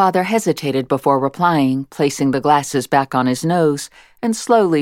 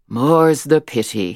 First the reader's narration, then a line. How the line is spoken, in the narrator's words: said, sighing